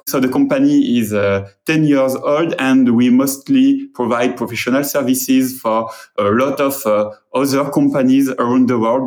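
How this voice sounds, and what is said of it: French-accented English. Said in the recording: “as you can hear, I'm French, and my English accent is almost as terrible”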